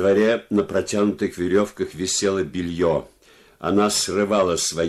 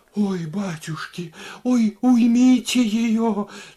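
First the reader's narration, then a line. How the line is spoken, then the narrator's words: Moaning. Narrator (Russian): стонала Варвара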